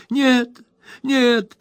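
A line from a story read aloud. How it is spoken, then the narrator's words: Babbling old aunt. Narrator (Russian): пролепетала незамужняя тетушка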